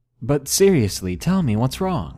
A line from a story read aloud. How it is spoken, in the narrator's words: awkwardly laughed and said nervously